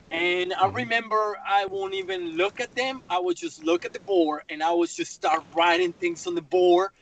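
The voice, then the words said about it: Latino-accented English. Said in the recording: “I'm the only one that is a minority, a Latino, right? And I have an accent”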